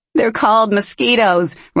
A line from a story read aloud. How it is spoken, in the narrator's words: Ryan called ahead with a laugh